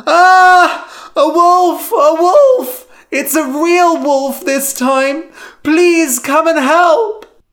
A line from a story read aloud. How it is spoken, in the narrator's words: Lyman screamed